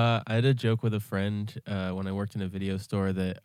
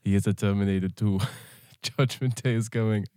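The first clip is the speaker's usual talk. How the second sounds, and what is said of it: Imitates another person's voice. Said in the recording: “Arnold Schwarzenegger ... I'm not gonna do the voice”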